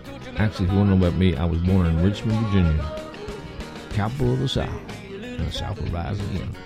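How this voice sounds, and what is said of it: Southern American accent. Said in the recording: “You can tell by my southern accent.”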